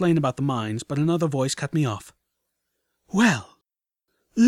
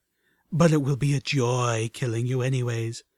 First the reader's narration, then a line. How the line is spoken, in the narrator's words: the third almost purred